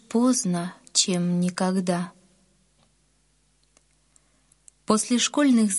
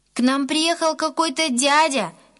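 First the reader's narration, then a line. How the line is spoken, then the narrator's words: Shouted from afar. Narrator (Russian): еще издалека крикнул Гена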